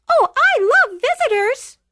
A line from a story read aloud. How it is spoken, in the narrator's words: Lilac squealed with delight